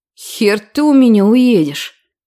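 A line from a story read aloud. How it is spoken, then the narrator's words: Menacing through teeth. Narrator (Russian): Многообещающе процедил он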